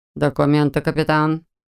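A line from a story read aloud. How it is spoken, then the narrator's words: Flat colorless voice. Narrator (Russian): бесцветным голосом ответил Олда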